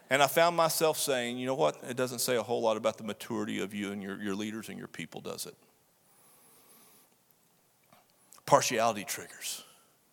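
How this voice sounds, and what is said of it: Strong Southern Texas accent. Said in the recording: “your strong Southern Texas accent”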